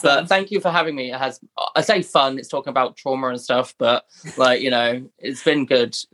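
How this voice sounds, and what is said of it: Speaks with a noticeable accent. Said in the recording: “I love your, your accent.”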